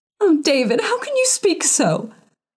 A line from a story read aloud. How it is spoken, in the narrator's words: sobbed his wife